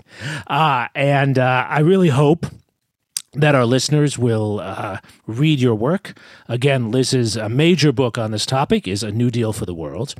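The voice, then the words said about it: Strained, fading voice. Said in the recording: “I'm losing my voice here... you lose your voice”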